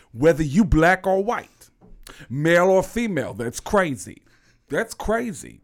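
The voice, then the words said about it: Tracy Morgan impression, Bronx voice. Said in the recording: “everybody in the Bronx sounds like Tracy Morgan. Everybody in the Bronx talk like this”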